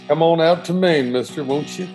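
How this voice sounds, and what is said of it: Put-on Southern US accent. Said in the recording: “a southern accent”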